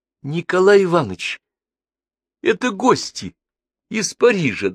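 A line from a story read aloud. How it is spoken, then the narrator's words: Trembling voice. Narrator (Russian): дрожащим голосом объяснил ему Сергеев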